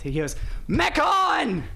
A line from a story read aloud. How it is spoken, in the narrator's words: He screams